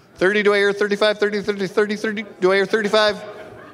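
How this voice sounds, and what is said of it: Fast auctioneer-style chant. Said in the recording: “It's my best auction impression.”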